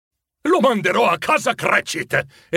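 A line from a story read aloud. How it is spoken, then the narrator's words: Pleased exclamation. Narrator (Italian): esclamò Scrooge, compiaciuto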